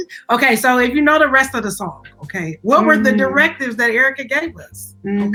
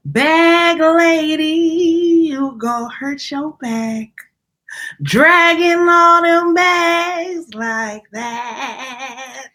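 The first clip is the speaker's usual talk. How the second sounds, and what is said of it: Sung imitation of another person's voice. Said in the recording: “That was a pretty good impression.”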